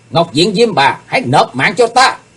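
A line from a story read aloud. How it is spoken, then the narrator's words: Shout. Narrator (Vietnamese): Tiếp theo tiếng hét, Chí Tôn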